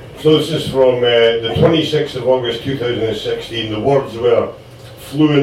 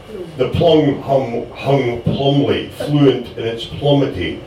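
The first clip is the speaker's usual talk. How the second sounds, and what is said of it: Put-on Scottish accent. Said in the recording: “It will be done in a Scottish accent, by the way, but it just won't be Michael O'Callaghan's Scottish accent.”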